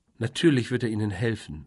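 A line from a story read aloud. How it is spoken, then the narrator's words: Plain. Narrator (German): sagte Caroline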